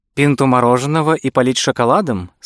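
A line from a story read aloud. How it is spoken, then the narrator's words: Plain. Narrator (Russian): спросила она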